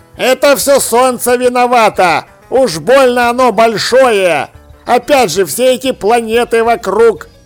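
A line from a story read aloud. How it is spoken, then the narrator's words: Grumbling. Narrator (Russian): проворчал Чудакулли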